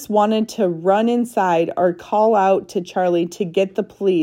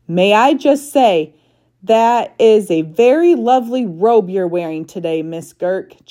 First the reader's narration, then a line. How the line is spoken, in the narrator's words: Charlie shouted